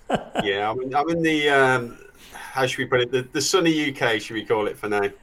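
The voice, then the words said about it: Non-American accent. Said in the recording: “as everyone can tell by your accent, you could have an accent and live in America, but you don't. You have an accent and don't live in America.”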